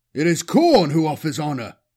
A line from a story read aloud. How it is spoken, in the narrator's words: Magron roared in retort, pleased at how offended he felt